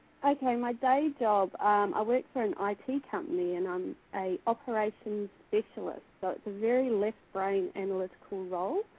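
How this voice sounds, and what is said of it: New Zealand or Australian accent. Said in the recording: “my terrible New Zealand / Australian accent... it's a beautiful accent”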